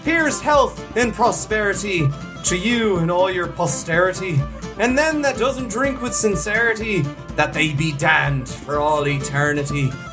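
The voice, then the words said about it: Put-on Irish accent. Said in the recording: “we're in Ireland ... I've got to practice my accent.”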